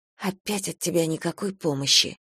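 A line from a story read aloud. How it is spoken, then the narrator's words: Muttering. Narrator (Russian): пробормотала я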